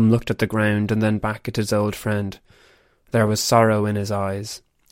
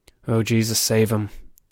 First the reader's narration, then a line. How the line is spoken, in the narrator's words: muttered under his breath